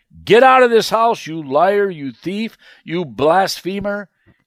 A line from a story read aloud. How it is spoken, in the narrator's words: Morton shouted